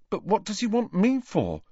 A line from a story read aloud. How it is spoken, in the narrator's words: asked Neville nervously, as though he were expecting detention